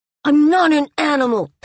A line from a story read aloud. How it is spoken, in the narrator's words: Tazu screamed, his fists clenched and his eyes as red as rubies